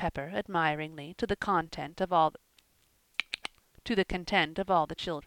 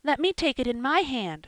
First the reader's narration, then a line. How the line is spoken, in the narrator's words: screamed Joel, reaching eagerly